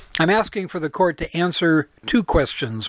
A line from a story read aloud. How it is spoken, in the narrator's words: Mike said